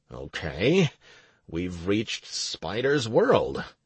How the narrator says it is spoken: I muttered

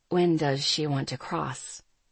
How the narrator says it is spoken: He asked, his voice quiet

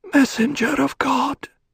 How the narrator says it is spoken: Waf breathed

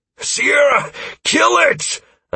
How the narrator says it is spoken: I bellowed as I struggled to keep it at bay

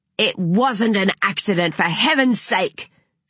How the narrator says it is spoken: snapped Renata

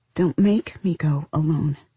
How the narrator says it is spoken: Carolina said, her voice breaking

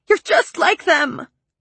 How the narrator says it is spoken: I said, wailing against his chest

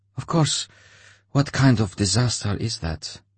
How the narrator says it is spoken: Anya answered him in a quiet, steely voice

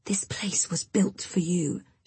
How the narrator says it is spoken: she hisses

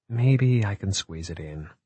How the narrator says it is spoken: she murmured

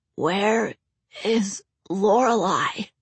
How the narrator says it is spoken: Alex rasped

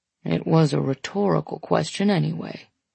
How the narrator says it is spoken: he mumbles

